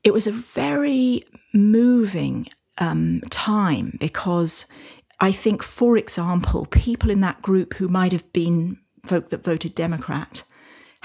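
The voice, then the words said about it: British accent. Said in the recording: “you can probably tell from my accent that I'm from the UK”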